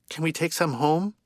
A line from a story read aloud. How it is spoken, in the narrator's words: Alana asked